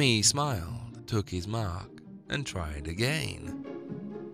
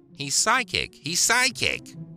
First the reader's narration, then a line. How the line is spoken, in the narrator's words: Gorsi would shriek